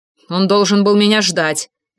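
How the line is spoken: Angry, through gritted teeth. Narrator (Russian): наполняясь гневом, процедил

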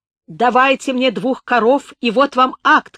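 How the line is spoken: Shouting. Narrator (Russian): кричал Романин

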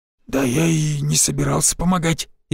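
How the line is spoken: Frightened mutter. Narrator (Russian): испуганно пробормотал Анисим

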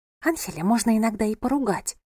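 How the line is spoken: Quiet whisper. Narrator (Russian): прошептала цыганка тихо, чтобы никто не услышал

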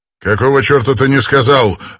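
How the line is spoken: Barking. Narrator (Russian): рявкнул Данрос

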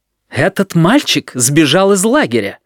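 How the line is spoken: Indignant announcement. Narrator (Russian): возмущённо известил директор

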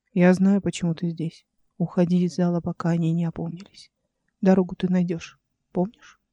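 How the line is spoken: Very quiet. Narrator (Russian): он сказал очень тихо

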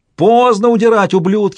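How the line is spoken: Warrior's furious ecstatic yell. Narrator (Russian): в яростном восторге завопил кто-то из воинов

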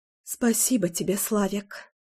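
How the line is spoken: Whispered. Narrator (Russian): шепнула я

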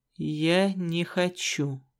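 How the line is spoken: Slow. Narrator (Russian): медленно ответил Черный

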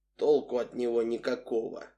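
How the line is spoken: Grim statement. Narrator (Russian): мрачно заявил тот

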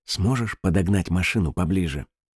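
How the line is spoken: Whisper. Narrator (Russian): Акушерка прошептала

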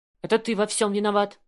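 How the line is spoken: Barking angrily. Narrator (Russian): рявкнула она

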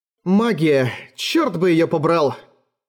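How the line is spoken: Angry grumble. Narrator (Russian): сердито буркнула

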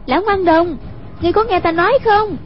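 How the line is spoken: Calling out. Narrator (Vietnamese): Hoàng Dung kêu lên

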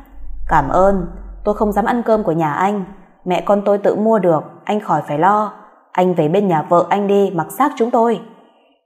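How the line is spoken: Cold reply. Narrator (Vietnamese): lạnh lùng đáp

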